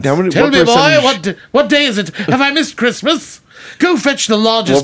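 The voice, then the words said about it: Put-on Victorian British accent. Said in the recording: “going back to British... That's that Victorian influence... What percentage of our listenership is in England cringing right now?”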